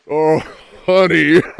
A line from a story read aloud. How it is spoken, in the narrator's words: gasped